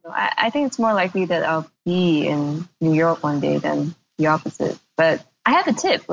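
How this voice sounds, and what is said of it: Voice slightly worn and going. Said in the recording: “my voice is going a little bit. I don't know if you can hear this, but it's because like I've done a couple of interviews today”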